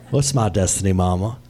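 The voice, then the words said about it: Forrest Gump impression. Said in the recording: “Says Forrest Gump... Was that a decent impression?”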